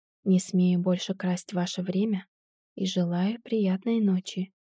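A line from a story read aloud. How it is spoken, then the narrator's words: Quiet wavering voice. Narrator (Russian): произнес тихо зыбким голосом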